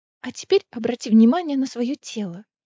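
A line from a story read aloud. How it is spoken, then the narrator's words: Quiet. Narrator (Russian): тихо сказала Гвин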